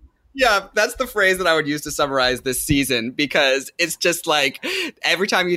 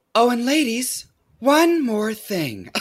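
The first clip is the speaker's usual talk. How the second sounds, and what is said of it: Imitates another person's voice. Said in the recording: “very, very good RuPaul impression ... It's so good. It's so good.”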